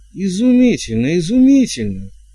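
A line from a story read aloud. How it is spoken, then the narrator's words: Exclaimed. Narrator (Russian): воскликнул герцог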